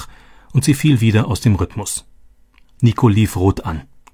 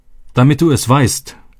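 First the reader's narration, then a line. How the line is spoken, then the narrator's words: Shouting. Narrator (German): schrie er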